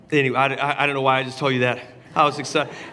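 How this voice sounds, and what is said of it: Hoarse, lower-pitched voice. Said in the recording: “my voice is gone. I'm an octave lower this morning. I was singing it.”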